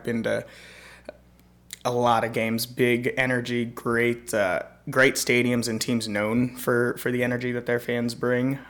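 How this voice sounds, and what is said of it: Strained voice, nearly lost. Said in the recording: “I lost my voice. I'm sure you can tell”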